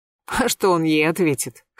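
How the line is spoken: Skeptical snort. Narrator (Russian): хмыкнула Светлана Петровна

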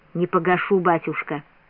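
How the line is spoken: Quiet reply. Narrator (Russian): Сын ответил тихо

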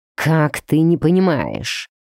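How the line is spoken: Growled. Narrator (Russian): прорычал блондин

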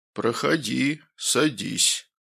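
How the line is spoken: Feigned deep voice. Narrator (Russian): произнесла фигура напускным басовитым голосом

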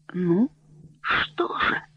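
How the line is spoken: Fearful whisper. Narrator (Russian): со страхом прошептал герцог

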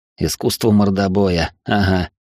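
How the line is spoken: Snort. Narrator (Russian): хмыкнул

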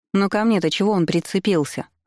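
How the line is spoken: Irritated question. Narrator (Russian): раздраженно спросила Томила

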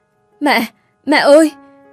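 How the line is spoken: Breathless panting. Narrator (Vietnamese): Hạnh thở hổn hển nói

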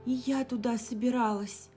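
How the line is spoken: Shocked exclamation. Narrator (Russian): потрясенно воскликнула женщина

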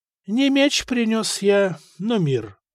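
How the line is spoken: Calm reply. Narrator (Russian): спокойно ответил епископ

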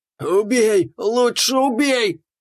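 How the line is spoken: Howling, struggling orc. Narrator (Russian): взвыл орк, дергаясь в захвате

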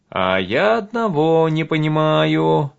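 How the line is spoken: Puzzled drawl. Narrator (Russian): недоумевающе протянул Толька

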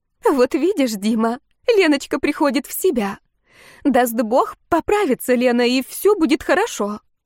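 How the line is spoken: Glad, mother-in-law. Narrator (Russian): Свекровь обрадованным голосом сказала

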